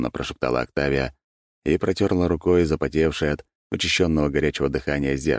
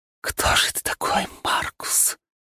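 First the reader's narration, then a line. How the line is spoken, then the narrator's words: Whispering. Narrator (Russian): прошептала Октавия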